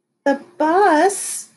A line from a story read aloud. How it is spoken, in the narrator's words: Claudia exclaimed